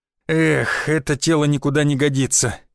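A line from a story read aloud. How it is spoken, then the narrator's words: Heavy sigh. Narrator (Russian): тяжело вздохнул я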